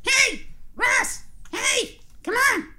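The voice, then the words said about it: Imitates a young girl's voice. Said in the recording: “That was a really good impression of my daughter. I'm actually extremely impressed.”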